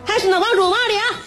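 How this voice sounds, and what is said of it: Heavy Henan accent. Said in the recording (Chinese): “带着很重的河南口音”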